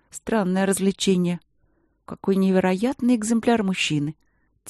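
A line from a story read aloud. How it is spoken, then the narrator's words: Quiet. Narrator (Russian): тихо сказала Ангелина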